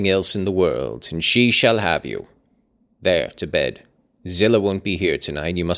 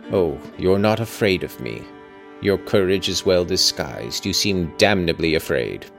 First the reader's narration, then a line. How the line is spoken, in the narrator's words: muttered